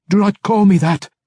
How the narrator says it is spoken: the spirit shrieked

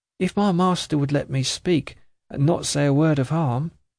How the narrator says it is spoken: the woman timidly began

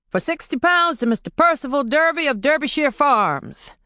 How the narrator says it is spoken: the auctioneer said loudly

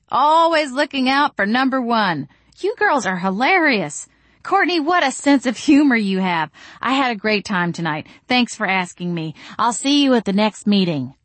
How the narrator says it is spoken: I said loudly

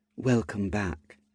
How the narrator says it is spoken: she said, in a soft tone

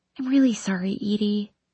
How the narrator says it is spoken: she whispers

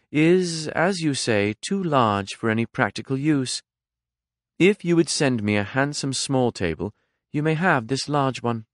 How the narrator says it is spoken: said smoothly

